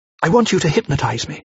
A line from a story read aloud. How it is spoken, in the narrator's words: said